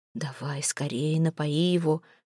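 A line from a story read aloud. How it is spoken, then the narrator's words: Whisper. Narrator (Russian): шепнул Ивар прекрасе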